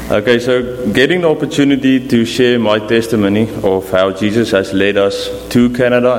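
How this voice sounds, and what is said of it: South African accent. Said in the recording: “There is a little bit of accent here. They come from South Africa.”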